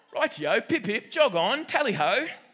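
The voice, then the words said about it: Put-on British accent. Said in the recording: “I was going really British there... putting on so many accents”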